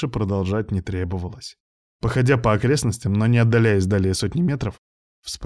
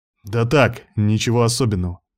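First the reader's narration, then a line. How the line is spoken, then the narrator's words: Snapping retort. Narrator (Russian): огрызнулся я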